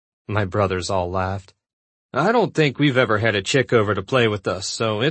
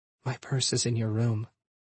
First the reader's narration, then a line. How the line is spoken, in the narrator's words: she whispered